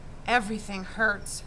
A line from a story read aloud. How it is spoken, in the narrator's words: Joel mumbled, but now the anger was replaced by shame